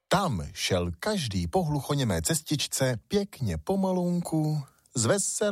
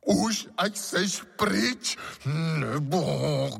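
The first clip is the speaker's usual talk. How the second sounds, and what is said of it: Hoarse, croaking character voice. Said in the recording (Czech): “chraptivě zaskřehotal”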